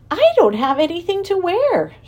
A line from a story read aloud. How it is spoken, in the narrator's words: she cried in dismay